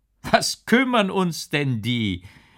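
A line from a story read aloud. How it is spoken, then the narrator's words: Big guard calling out. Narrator (German): rief der große Wächter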